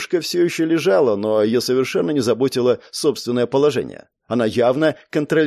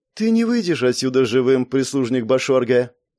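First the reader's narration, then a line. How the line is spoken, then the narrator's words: Calm. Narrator (Russian): спокойно произнесла Лиара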